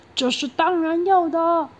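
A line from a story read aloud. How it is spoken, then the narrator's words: Angry loud shout. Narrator (Chinese): 鳗鱼店的老板气得脸都红了，大声的喊说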